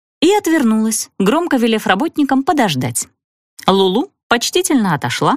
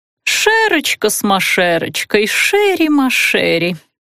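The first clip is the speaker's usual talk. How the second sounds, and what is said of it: Quiet mocking mimicry. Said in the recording (Russian): “вполголоса передразнила”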